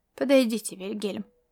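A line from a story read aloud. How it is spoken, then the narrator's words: Quiet. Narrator (Russian): негромко произнес Ласло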